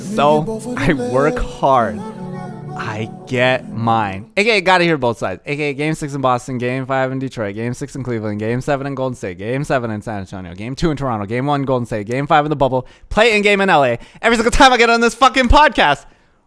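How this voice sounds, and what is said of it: Imitates another person's voice. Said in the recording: “That's my TZ impersonation.”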